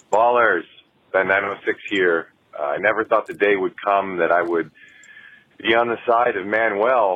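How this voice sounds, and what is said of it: Rich, resonant radio voice. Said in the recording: “has a beautiful timbre. Great voice. ... This guy got a radio voice. ... He's got pipes.”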